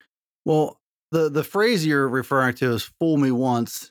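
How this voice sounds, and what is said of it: Usual voice. Nothing is said of it.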